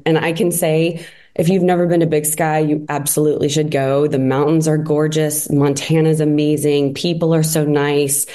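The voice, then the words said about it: Sick, somewhat messed-up voice. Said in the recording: “my voice, I caught the flu on the way home, and I'm still getting over it ... my voice is a little messed up”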